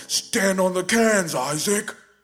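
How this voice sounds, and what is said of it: Groggy grandmother voice. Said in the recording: “in her groggy voice”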